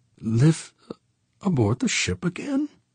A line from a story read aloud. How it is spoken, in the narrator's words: she murmured